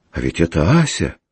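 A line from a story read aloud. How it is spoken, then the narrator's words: Exclaiming. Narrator (Russian): воскликнул Гагин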